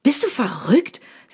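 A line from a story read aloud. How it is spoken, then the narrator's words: Angry. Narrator (German): sagt dieser wütend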